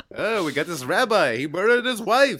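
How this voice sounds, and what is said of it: Rabbi character voice. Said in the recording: “my rabbi impression”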